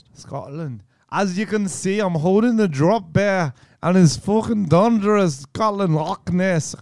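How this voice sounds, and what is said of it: Put-on Scottish accent. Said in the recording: “imitate her voice ... Scottish accent? ... Yeah, obviously. ... That's pretty good. ... That's not bad.”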